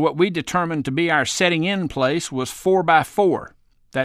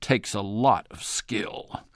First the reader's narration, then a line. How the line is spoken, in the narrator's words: said gravely